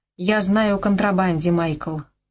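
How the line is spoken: Even, level voice. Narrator (Russian): ровным голосом объявила она

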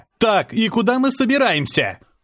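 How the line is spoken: Shouting over noise. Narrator (Russian): крикнул я, стараясь заглушить грохот

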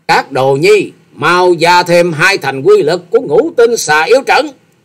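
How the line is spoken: Furious woman's scream. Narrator (Vietnamese): Xà Hà tiên tử càng thêm giận dữ thét vang

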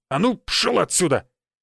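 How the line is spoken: Woman's barking shout. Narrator (Russian): гаркнула женщина

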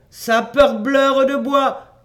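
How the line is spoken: Shouting. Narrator (French): cria-t-il

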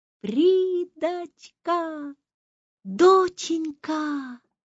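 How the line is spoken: Breathless lilting voice over phone. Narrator (Russian): громко дышала в трубку и, наконец, сказала, будто протанцевала

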